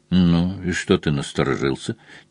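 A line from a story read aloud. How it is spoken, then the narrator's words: Quiet question. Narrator (Russian): тихонько спросил Мазур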